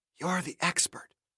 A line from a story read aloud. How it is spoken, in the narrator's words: Sarah whispered in an almost inaudible voice